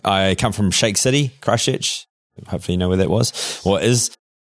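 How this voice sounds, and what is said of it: New Zealand accent with a twang. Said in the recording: “originally I'm from New Zealand. You might have noticed the twang, my accent.”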